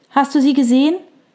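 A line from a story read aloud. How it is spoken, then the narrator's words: Calling out. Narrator (German): rief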